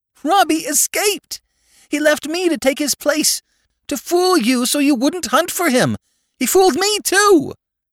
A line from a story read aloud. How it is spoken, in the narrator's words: screamed the child, nastily, sobbing